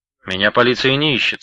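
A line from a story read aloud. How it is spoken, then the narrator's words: Calm objection. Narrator (Russian): спокойно возразил тот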